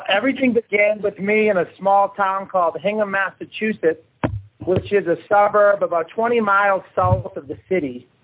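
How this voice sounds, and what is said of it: Boston accent. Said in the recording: “I stem from Boston, as you might be able to tell from my accent. I parked a car in Harvard Yard.”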